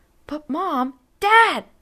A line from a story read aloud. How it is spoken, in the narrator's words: Henry shouted